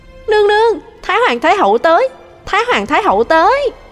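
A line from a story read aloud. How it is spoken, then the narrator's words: Joyful exclamation. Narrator (Vietnamese): tiếng Tả Ý reo lên vui vẻ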